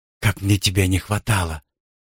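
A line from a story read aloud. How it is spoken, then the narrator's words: Sigh. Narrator (Russian): вздохнула Люси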